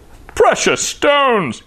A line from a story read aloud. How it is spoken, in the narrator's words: he roared, even louder than before